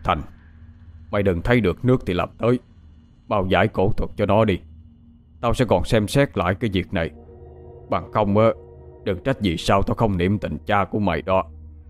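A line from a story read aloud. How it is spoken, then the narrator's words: Harsh, stern. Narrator (Vietnamese): ông trưởng ... gằn giọng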